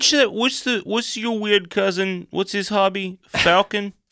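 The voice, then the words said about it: Put-on Jersey or Philly accent. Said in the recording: “good Jersey impression ... Like a Philly accent, which is pretty close.”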